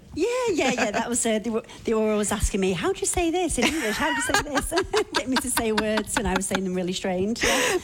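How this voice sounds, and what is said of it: English accent. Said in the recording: “this different accent ... I'm originally from England”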